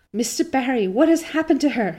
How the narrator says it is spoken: she gasped, more white and shaken

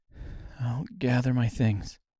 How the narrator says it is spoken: she said quietly

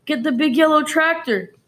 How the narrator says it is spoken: the farmer shouted

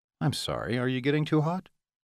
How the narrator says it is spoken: His voice sounded almost innocent

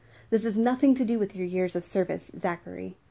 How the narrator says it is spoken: Raphael cut him off sharply

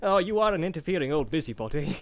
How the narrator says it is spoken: laughed Bilbo

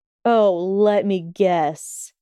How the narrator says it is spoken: he sneered darkly

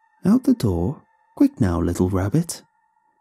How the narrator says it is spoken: she cooed

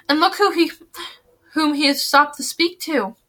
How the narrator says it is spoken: she said with a gasp

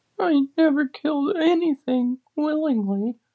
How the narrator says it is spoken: she sobbed

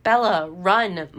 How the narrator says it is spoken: Mike cried out again from behind me

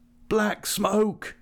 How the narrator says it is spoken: the voices cried

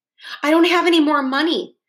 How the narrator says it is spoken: Jeff said nervously

